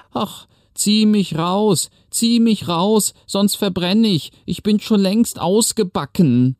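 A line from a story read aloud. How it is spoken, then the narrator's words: Bread screaming again. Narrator (German): schrie das Brot wieder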